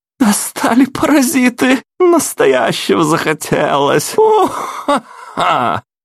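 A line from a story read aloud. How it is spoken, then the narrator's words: Roaring laughter. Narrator (Russian): Фергюс расхохотался пуще прежнего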